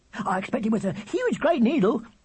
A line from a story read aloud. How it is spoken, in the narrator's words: said Charlie happily